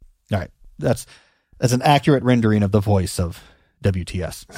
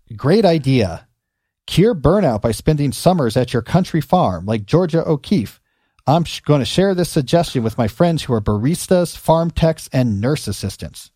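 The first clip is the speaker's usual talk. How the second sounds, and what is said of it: Sarcastic reading voice. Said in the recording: “in my best sarcastic voice ... I think this is supposed to be sarcastic”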